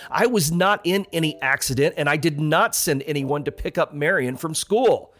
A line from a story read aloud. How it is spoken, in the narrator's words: he snapped